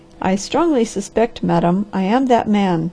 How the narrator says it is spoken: said the Harvester

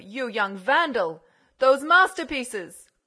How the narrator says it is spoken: shouted the Count

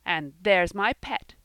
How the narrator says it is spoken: he cried in enthusiasm

